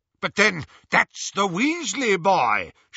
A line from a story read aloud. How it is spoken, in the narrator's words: shouted Lucius